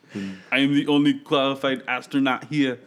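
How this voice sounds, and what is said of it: Put-on Russian accent. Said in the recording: “That was horrible. ... That was your Russian astronaut accent? ... He sounds weird.”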